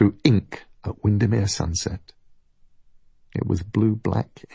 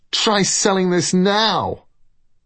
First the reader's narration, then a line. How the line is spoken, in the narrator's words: shouted